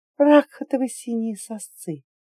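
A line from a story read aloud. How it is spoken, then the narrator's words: Dry-throated whisper. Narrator (Russian): пересохшим голосом прошептала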